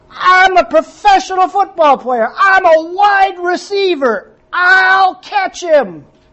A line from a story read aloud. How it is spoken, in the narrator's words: Larry yelled back, he said